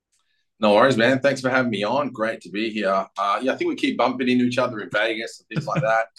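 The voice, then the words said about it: Australian accent. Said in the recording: “Australian, obviously. You can probably tell from the accent.”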